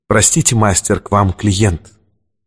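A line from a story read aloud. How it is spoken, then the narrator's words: Quiet, into empty room. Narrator (Russian): Портье негромко сказал в пустоту обширного помещения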